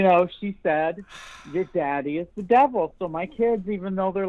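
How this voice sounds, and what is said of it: Usual voice. Nothing is said of it.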